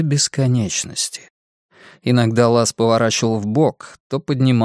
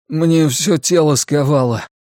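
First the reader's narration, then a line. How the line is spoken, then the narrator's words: Strained forced words. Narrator (Russian): на силу выдавил я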